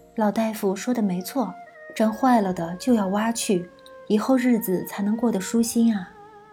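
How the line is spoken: Gentle, soft. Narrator (Chinese): 香桂冲他安稳一笑，柔声道

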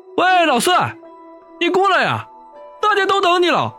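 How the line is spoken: Calling out. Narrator (Chinese): 老大还对着我喊

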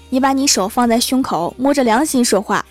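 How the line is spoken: Arguing. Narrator (Chinese): 薯条一天和欢喜吵架，薯条对欢喜说

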